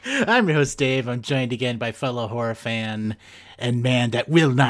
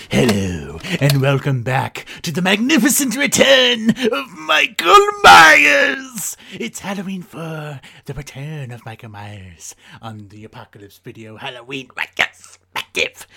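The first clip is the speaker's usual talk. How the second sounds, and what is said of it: Throat-straining put-on voice. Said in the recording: “it's really tough on my throat to do that voice.”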